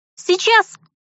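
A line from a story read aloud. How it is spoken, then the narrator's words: Squeak. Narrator (Russian): Пискнула я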